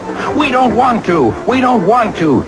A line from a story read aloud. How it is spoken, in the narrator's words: they grumbled